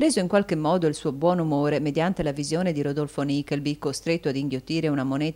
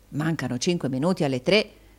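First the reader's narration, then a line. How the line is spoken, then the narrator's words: Grumbling. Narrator (Italian): brontolò Newman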